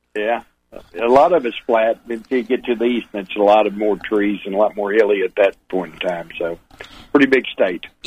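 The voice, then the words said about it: Texas-Oklahoma Southern accent. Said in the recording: “I just love that Texan accent... It's a little cross between Texas and Oklahoma accent.”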